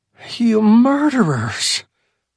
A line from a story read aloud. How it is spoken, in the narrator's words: Joe groaned